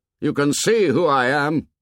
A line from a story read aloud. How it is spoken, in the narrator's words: he shouted